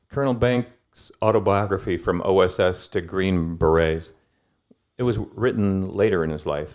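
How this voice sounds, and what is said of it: Usual voice. Nothing is said of it.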